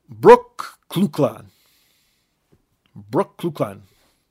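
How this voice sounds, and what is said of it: Brooklyn said in put-on accent. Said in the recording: “I'm just saying Brooklyn in an accent.”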